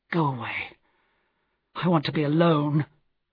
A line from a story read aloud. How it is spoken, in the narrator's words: he said miserably